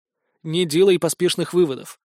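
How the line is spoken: Wry grunt. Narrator (Russian): хмыкнул в последний раз

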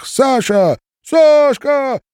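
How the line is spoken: Shouts from crowd. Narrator (Russian): закричали из толпы

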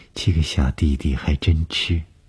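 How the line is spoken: Flat, indifferent. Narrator (Chinese): 董峰只是淡淡地说

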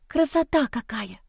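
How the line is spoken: Admiring whisper. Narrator (Russian): прошептала Лиза, восхищенно

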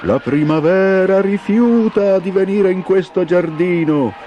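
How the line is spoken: Shouting in chorus. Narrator (Italian): gridarono i gelidi amici

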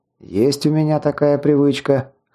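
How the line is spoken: Snorting. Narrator (Russian): хмыкнул я

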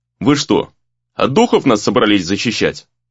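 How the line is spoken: Snorting remark. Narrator (Russian): хмыкнул Гризли

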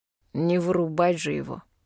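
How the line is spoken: Gloomy remark, young man. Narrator (Russian): мрачно замечает черноволосый парень

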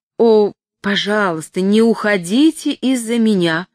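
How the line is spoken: Hasty exclamation. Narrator (Russian): поспешно воскликнула тетя Кэрри

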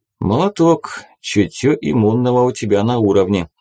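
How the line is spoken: Approving chuckle. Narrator (Russian): одобрительно хохотнул безымянный

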